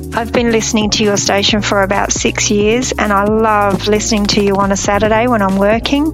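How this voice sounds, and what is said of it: Australian accent. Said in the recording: “I love hearing your accent because we don't talk that way here in Texas”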